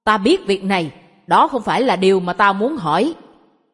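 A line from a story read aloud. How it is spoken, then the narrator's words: Loud outburst. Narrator (Vietnamese): Tôi không kìm được nữa, quát to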